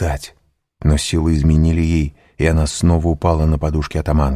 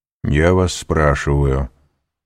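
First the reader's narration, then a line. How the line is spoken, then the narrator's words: Calm voice. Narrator (Russian): продолжал Вильфор спокойным голосом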